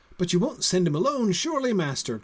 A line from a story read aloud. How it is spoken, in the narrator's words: cried Sam